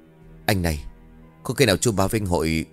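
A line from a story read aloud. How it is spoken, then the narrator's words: Worried whispered question. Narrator (Vietnamese): Cả bọn lo lắng, một tên thì thầm hỏi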